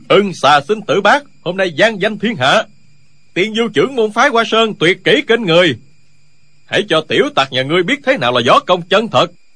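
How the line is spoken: Loud crowd cheering. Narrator (Vietnamese): môn hạ phái Hoa Sơn reo hò gian dội

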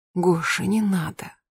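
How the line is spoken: Whispered. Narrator (Russian): прошептала она

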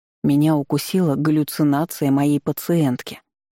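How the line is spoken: Gloomy. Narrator (Russian): мрачно произнёс богин

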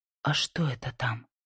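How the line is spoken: Whisper. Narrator (Russian): прошептала

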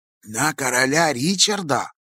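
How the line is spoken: Low, hushed voice. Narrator (Russian): вполголоса проговорил господин Гольдберг

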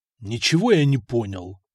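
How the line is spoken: Angry reply. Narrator (Russian): зло ответил

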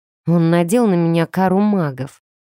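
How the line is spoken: Glum admission. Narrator (Russian): уныло призналась

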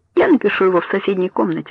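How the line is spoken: Plain. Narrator (Russian): сказал Этьен

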